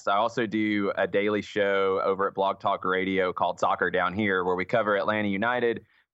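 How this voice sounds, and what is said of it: Southern American accent. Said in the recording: “Southern accents ... you probably don't think you have one. You do. ... that accent still sounds like you're being condescending and making fun of it”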